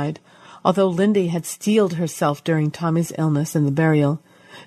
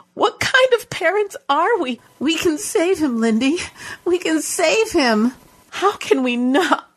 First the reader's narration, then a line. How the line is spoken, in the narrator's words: She choked on the final word and sobbed into her hands